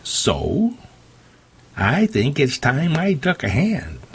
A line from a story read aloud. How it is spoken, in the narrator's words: Meg, her tone pugnacious, said